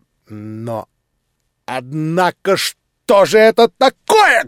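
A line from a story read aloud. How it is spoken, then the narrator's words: Angry sudden stern exclamation. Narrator (Russian): грозно и внезапно воскликнул рассердившийся Ордолеон Александрович Иволгин, хозяин дома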